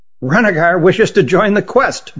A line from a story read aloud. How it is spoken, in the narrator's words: blurted Hutt